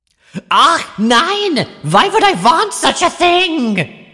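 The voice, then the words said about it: Exaggerated fake German accent. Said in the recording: “he expresses this in an accent that may actually be worse than Gambit's ... all of his W's are V's, and he just keeps, like, sprinkling in random little bits of German words ... awful, awful phonetic accents”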